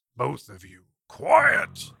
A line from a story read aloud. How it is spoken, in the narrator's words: roared Rengar